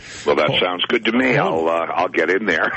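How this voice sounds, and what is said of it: Strong, polished radio voice. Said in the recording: “where'd you get those pipes ... I put on my radio voice”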